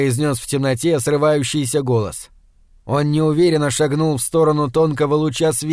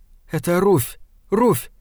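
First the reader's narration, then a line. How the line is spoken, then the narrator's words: Frightened whisper. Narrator (Russian): сказала она перепуганным шепотом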